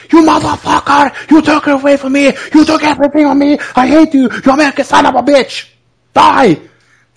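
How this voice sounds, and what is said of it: Aggressive shouting imitation. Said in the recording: “talks to you aggressively, he almost shouts at you ... he's yelling”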